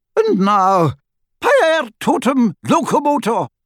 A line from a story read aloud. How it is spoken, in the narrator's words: cried Professor McGonagall